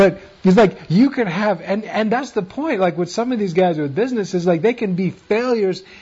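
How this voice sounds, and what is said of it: Usual voice. Nothing is said of it.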